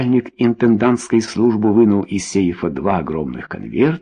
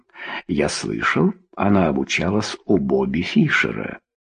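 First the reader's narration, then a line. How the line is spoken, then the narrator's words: Confidential tone. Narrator (Russian): Джефф сказал доверительным тоном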